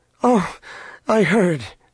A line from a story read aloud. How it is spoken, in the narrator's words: she cried